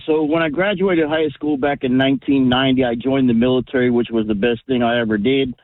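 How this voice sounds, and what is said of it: Slight Texas accent. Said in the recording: “Wound up down in Texas. And you can hear the accent a little bit.”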